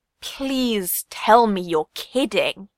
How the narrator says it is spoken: Yasop groaned

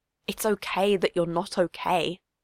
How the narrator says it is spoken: she whispered

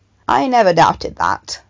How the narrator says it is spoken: Tim said dryly

